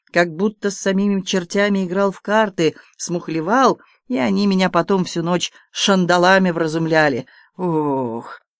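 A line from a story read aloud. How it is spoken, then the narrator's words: Groaning. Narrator (Russian): Он застонал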